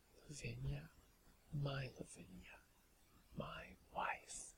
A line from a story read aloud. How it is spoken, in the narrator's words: murmuring